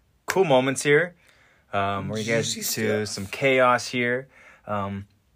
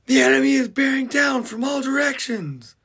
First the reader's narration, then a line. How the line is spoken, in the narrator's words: A scout now just yells out